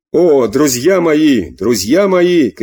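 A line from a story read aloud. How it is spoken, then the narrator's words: Shouting to a crowd. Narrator (Russian): кричал он, обращаясь к народу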